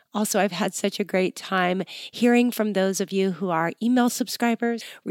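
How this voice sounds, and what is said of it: Nasal, congested voice. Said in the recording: “excuse my voice ... I am just coming out of a head cold, and I know I'm sounding a little bit nasally”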